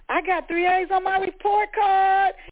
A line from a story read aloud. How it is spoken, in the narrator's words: Rosetta screamed